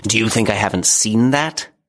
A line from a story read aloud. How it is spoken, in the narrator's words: he snarled